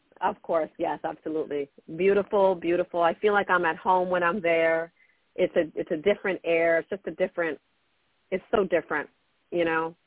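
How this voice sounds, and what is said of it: Brooklyn accent. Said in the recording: “Brooklyn, born and raised. You can hear it in my accent. ... a beautiful Brooklyn accent”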